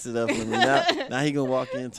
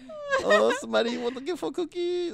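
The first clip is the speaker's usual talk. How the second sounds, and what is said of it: Bad Filipino accent, imitating Pacquiao. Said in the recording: “talking like Pacquiao ... That is a horrible Filipino accent.”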